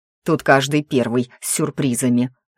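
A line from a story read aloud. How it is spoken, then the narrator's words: Angry growl. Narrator (Russian): зло рыкнул на него Таор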